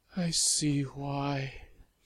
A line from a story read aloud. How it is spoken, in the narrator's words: she started in a hollow, beaten voice